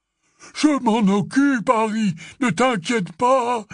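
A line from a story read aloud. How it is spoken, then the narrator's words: Exclaimed. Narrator (French): s'écria Hagrid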